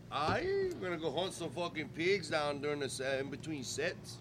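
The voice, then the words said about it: Weak put-on Creole accent. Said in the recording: “Was that your Creole accent? ... My lame attempt at one.”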